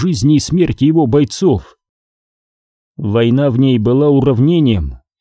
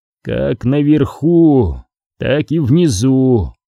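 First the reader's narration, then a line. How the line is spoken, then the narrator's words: Through clenched teeth. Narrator (Russian): процедил примарх сквозь сжатые зубы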